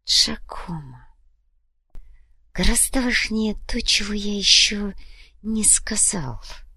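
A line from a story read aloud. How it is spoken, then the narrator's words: Soft reply. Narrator (Russian): мягко ответил сыну Александр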